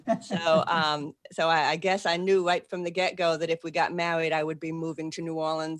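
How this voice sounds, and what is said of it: Boston accent. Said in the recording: “I still have a Boston accent.”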